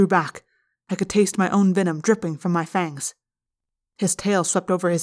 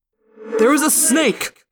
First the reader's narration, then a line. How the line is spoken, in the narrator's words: Visser III roared